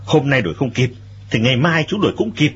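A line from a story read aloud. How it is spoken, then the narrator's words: Cold faint laugh. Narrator (Vietnamese): Lệnh Hồ Xung cười nhạt nói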